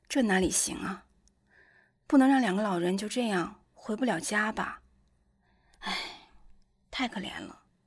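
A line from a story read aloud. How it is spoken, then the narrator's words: Sighing. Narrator (Chinese): 黄蓉叹了口气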